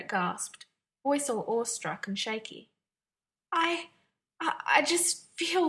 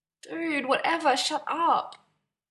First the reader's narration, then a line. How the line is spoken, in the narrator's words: Stiles groaned